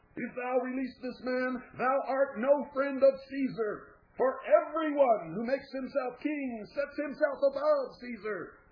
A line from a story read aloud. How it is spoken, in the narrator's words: They began to shout